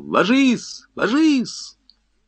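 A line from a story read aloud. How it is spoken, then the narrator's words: Shout. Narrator (Russian): кто-то крикнул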